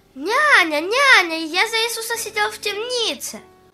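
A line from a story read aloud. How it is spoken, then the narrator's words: Cheerful shout. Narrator (Russian): Аня весело крикнул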